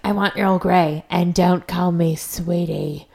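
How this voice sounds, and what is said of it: Old lady voice. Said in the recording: “That was a good old lady voice.”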